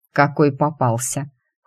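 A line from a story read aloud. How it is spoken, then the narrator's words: Cold interruption. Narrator (Russian): холодно перебил Алир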